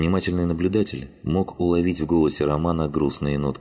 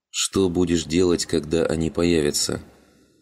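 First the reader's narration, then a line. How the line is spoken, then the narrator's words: Quiet question. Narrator (Russian): тихо спросил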